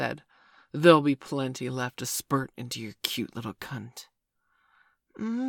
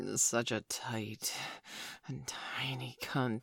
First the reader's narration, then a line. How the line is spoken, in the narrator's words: he breathed